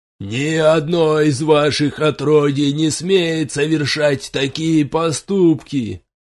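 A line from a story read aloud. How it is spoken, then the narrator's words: Paladin yelling from pit. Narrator (Russian): орал паладин из глубокой ямы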